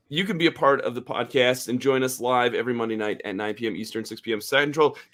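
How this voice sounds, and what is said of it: Tired, slightly weak voice. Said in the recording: “I'm a little tired. ... from the busy weekend. And that's probably why my voice isn't quite there too.”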